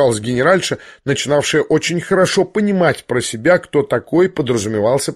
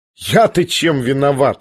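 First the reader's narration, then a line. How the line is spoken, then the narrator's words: Laughing. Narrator (Russian): смеялась Аделаида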